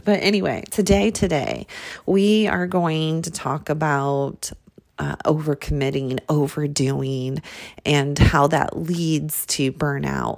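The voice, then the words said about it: Smoky, slightly hoarse voice. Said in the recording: “I'm coming to you today with a slight cold... My voice is so smoky... It's kind of the sexy, my perception of a sexy voice.”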